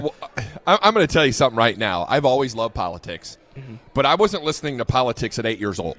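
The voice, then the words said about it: Strained, worn-out voice. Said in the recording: “I got a little frog on my ... so my voice is about ready to fall out here”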